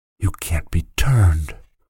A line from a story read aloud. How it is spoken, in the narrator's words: whispered the boy